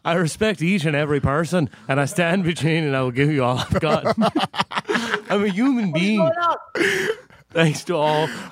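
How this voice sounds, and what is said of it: Put-on English accent. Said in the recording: “Can you just read the fucking thing in an English accent?”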